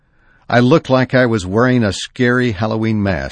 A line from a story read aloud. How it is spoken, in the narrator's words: says